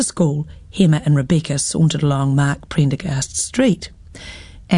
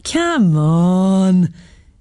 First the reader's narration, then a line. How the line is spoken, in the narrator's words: Hema giggled